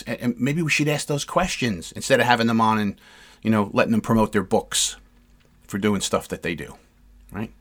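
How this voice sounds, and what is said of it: Frustrated, exasperated speaking tone. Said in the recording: “You can hear the frustration in my voice”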